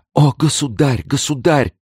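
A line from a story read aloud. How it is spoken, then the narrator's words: Terrified exclamation. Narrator (Russian): воскликнула она с выражением непреодолимого страха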